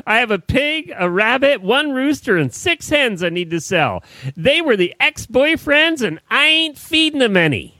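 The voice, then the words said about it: Put-on Southern US accent. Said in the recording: “Now you got me in a southern accent.”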